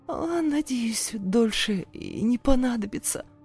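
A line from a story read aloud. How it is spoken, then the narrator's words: Hoarse reply. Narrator (Russian): хрипло отозвалась я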